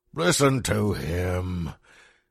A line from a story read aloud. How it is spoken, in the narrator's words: he shouted jeeringly